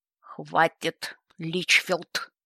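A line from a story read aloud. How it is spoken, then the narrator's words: Sudden booming male voice. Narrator (Russian): Внезапно прогремел на весь холл третий мужской голос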